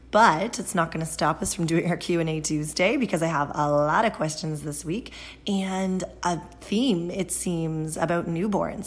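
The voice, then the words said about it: Scratchy, raspy voice. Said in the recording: “My voice is scratchy. It's the change of seasons... I sound a little raspy.”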